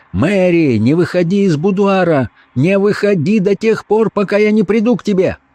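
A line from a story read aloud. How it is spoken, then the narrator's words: Shouting at full voice. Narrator (Russian): закричал во весь голос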